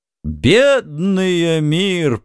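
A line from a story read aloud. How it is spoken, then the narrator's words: Mock groan. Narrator (Russian): притворно застонал шут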